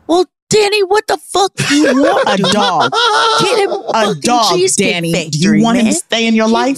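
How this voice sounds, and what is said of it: Yelling, raised angry voice. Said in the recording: “I raised my voice ... I love yelling.”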